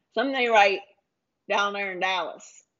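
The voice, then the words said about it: Put-on Texas Dallas accent. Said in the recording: “That's not a good Dallas accent either. ... I thought it was good. ... Was it a good Texas accent?”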